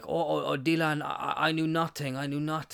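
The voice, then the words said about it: Terrible put-on Polish accent. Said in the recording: “that's a terrible Polish accent.”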